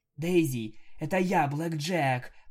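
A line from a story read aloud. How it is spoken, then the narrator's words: Hoarse, coughing, spluttering. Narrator (Russian): прохрипела я, кашляя и брызгая слюной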